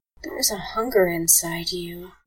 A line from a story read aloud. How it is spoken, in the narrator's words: Allison said quietly